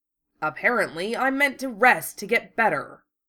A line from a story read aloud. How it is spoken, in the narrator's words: Wufei growled